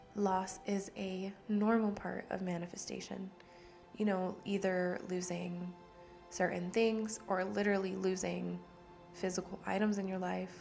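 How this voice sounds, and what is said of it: Hoarse, fading voice. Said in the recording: “I don't know why I'm losing my voice now.”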